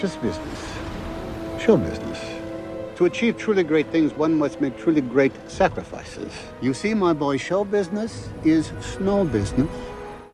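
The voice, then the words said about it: Tom Hanks as Colonel Parker, Dutch accent. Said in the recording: “Tom Hanks made in portraying Colonel Tom Parker is to ... accentuate this Dutch accent, which in fact Colonel Tom Parker did not do or have ... he didn't talk like that”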